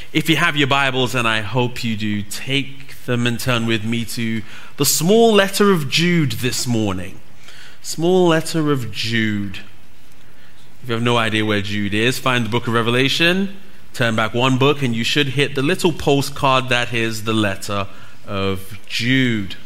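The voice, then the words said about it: British English accent. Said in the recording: “You'll notice that I don't have you guys' accent. ... I'm from the country that gave you the English language”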